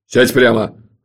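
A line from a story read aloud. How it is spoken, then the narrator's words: Barked command. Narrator (Russian): рявкнул Джуфин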